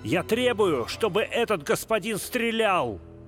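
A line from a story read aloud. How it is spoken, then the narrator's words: Furious shout. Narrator (Russian): Грант крикнул с бешенством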